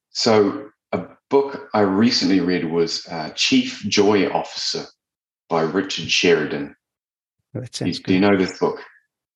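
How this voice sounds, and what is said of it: New Zealand accent. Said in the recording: “got a Kiwi Kiwi accent, so he sounds like a bit better than me”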